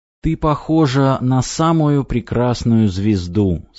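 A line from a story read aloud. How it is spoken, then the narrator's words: Plain. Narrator (Russian): сказал он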